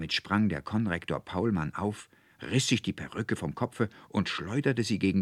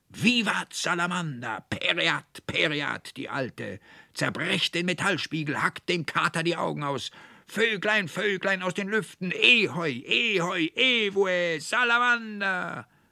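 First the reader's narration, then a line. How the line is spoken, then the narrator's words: Frenzied overlapping shouting. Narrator (German): So schrien und brüllten die drei wie Besessene durcheinander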